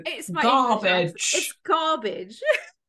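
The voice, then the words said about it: Put-on English accent. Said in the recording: “Is that your English accent? ... Sounds like you're saying cabbage.”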